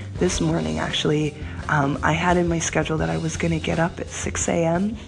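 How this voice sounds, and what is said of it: Congested, nasal, sick-sounding voice. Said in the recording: “if you can hear it in my nose, you can hear it in my voice. I'm a little under the weather”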